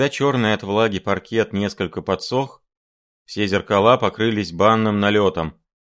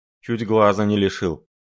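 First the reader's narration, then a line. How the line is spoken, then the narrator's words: Grim reply. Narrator (Russian): мрачно отозвался Шариков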